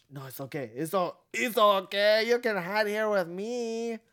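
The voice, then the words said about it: Put-on Spanish accent. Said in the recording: “Sloth has a Spanish accent?”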